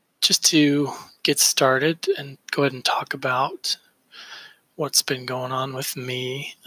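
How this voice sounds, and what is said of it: Sounds a little sick. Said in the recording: “if I sound a little sick, it's because I am sick.”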